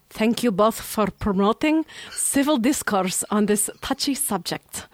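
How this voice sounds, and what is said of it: Put-on Russian accent. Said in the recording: “in a Russian accent.”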